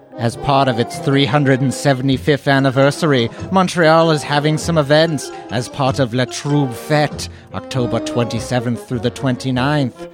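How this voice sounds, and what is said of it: Generic spooky voice. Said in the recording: “this is a generic spooky voice.”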